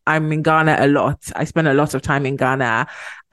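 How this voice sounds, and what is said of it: Very British accent. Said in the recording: “my very British accent”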